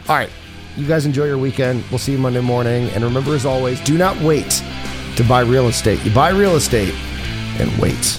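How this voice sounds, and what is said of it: Rough, strained voice. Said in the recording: “My voice feels a little rough... you can hear my voice kind of going... I'm losing my voice again”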